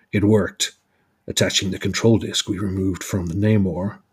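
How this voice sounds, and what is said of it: Captain America impression. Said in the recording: “let me do Captain America accent.”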